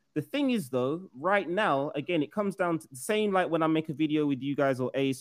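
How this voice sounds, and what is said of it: British accent. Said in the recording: “I'm a UK. If you didn't know already by the accent, people that are listening, I am from the UK”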